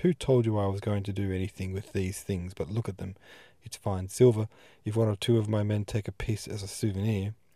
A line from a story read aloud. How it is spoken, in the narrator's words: he got red, and exclaimed